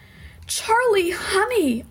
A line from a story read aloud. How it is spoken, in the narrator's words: cried